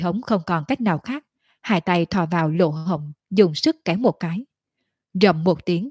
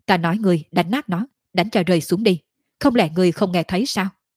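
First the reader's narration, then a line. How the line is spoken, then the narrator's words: Slightly angry. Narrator (Vietnamese): Tiểu Lôi hơi tức giận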